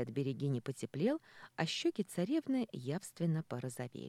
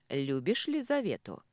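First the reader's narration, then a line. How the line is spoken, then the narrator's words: Blunt question. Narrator (Russian): спросила в лоб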